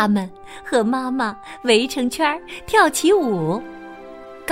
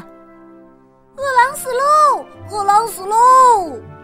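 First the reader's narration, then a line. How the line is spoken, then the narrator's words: Little goats shouting together. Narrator (Chinese): 七只小羊都喊着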